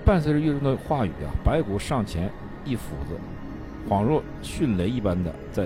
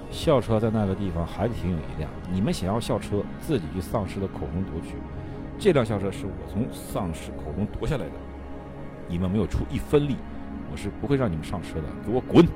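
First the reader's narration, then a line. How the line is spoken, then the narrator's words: Stern disgusted shout. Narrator (Chinese): 岳仲 厌恶的 沉声喝道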